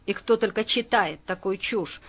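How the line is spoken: Grumbling mutter. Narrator (Russian): пробурчал он

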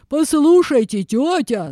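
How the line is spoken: Bear yelling. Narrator (Russian): заорал медведь

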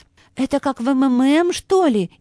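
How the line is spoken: Frightened question. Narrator (Russian): испуганно спросила Анна Сергеевна

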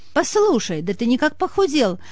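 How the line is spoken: Exclaimed. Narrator (Russian): воскликнула Серафима Игнатьевна

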